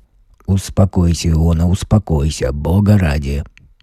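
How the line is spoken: Pitying anxious mutter. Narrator (Russian): бормотал тот, и жалостливо и тревожно у него кривилось лицо

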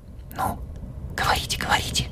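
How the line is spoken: Cautious whisper. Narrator (Russian): шепнул наконец Шахов, убедившись, что Еворский опять заснул

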